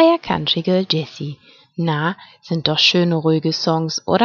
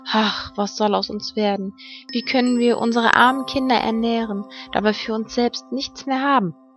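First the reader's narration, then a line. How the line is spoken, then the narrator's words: Worried sigh. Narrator (German): seufzte er und sprach zu seiner Frau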